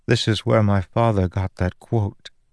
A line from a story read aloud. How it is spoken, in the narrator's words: said